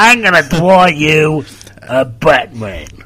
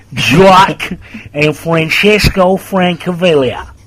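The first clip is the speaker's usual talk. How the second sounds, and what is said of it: Put-on American accent. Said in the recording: “That's a new American accent you've got there. You've got like 3 now”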